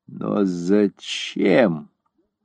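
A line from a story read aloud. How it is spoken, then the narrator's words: Forced out, strained. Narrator (Russian): наконец выдавила она из себя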